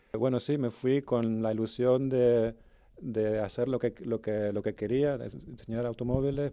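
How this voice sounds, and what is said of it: Mixed Canarian and German-tinged Spanish accent. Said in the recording (Spanish): “Ese, ese mix de acento que le escucháis a ... es el resultado de, haber nacido en, Gran Canaria... y llevar 30 años fuera... mi acento canario... ya tengo un poco de mezcla medio alemán”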